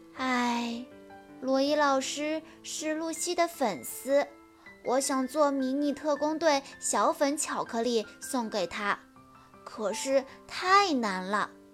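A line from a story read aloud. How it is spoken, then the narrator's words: Sighing. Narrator (Chinese): 秀智叹着气说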